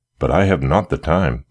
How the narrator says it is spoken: he interrupted eagerly

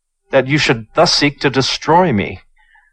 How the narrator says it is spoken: cried Chu

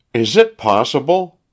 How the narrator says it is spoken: cried the wife

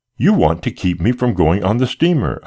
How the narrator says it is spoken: I cried

